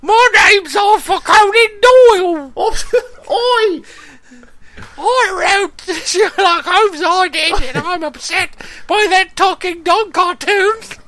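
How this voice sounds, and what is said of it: Put-on Scottish accent. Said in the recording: “Doyle was Scottish, so you fix that accent right there.”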